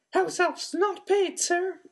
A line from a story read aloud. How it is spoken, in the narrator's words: she said in a muffled squeak